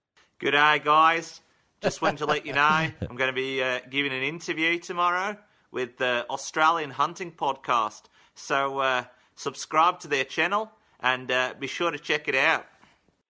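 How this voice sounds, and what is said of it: Fairly good put-on Australian accent. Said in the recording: “Saying you had your Aussie accent ... this is ... idea of the Australian accent ... It's not as bad as I thought. It was actually pretty good”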